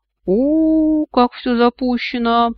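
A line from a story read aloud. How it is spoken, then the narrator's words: Drawling, clicking tongue. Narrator (Russian): протянул он, цокая языком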